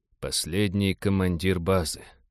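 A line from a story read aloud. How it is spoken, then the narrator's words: Respectful whisper. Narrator (Russian): уважительно прошептал Роджер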